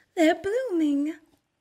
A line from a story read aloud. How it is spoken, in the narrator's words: Briar Rose cried